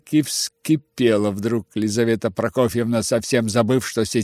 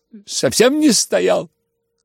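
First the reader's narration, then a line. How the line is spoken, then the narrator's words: Shouted. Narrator (Russian): крикнул Коля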